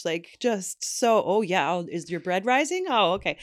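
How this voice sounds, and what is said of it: Exaggerated Minnesotan accent. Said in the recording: “I don't know why I'm doing a Minnesotan accent. That is not a Canadian accent... when I do it terribly”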